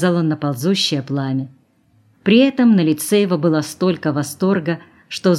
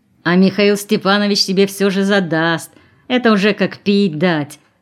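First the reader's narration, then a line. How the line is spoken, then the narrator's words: Mocking shout. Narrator (Russian): крикнул кто-то насмешливо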